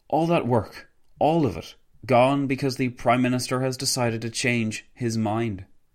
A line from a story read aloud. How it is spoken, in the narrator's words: Wilson sighed loudly before exclaiming